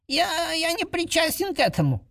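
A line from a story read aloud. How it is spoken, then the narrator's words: Squeaky voice. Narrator (Russian): пропищал он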